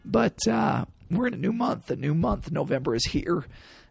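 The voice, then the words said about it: Raspy, hoarse voice. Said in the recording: “the raspiness in my voice... lost my voice”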